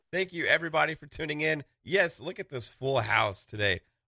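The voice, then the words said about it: Sick, rough voice. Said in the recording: “I apologize for my voice ... Let's keep this voice ... See if I can't stay sick.”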